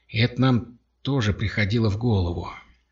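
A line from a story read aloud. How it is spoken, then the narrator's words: Plain. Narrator (Russian): ответил Кровли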